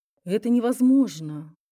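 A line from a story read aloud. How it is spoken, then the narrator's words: Stunned doctor's exclamation. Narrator (Russian): ошеломленно воскликнул врач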